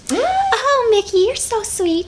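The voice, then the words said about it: High cartoon character voice. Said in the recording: “do cartoon characters. Nice. Like Minnie Mouse ... Minnie Mouse”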